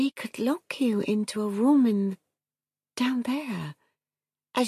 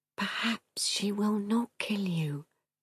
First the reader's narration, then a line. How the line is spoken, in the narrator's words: he whispered